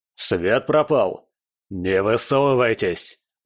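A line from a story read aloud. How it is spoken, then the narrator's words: Growl. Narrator (Russian): прорычал еще один голос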